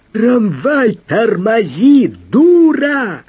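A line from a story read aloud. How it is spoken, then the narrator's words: Deafening bellowing yell. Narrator (Russian): Евстратий Павлович оглушительным иерихонским голосом возопил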